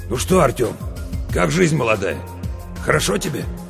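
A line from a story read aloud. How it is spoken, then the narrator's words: Hoarse. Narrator (Russian): а сам так хрипло мне говорит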